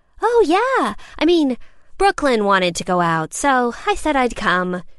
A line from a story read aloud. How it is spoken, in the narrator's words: she shrugged, happily throwing me under the bus in her attempts to appear nonchalant